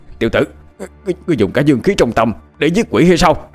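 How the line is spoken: Old man's sudden shout. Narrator (Vietnamese): Lão cũ không khỏi hét lên một tiếng

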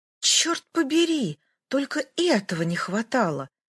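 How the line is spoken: Alarmed woman's exclamation. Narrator (Russian): встревоженно воскликнула китаянка

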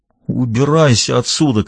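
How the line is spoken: Strangled voice. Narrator (Russian): каким-то сдавленным голосом произнес Клифф

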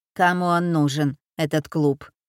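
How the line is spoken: Gloomy. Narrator (Russian): сказала Элиза мрачно

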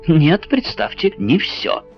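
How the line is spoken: Eager exclamation. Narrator (Russian): воскликнул с новым азартом ученый

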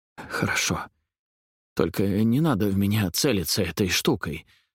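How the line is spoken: Quiet, stammering. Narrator (Russian): сказал Грэм тихим голосом, то и дело запинаясь

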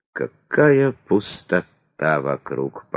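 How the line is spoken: Moaning. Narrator (Russian): простонала царица

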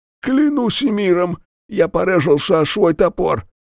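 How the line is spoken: Grumbling, wheezing, injured. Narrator (Russian): Сопя и брызгая кровью, проворчал Эльден

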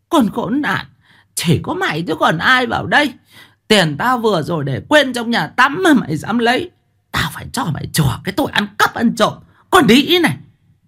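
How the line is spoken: Hissing shriek. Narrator (Vietnamese): rít lên

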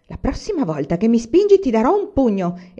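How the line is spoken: Angry flushed exclamation. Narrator (Italian): esclamò Michael rosso in faccia

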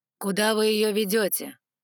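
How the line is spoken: Stern dragon question. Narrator (Russian): строго спросил ледяной дракон, Алан

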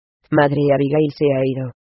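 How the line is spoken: Panting speech. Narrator (Spanish): dijo entre jadeos

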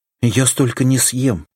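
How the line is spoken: Pleading. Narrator (Russian): взмолилась Соня

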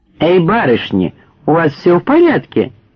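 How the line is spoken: Yelling. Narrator (Russian): завопил Дик

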